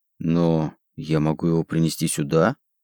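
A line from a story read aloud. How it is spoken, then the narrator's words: Timid objection. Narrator (Russian): робко возразил я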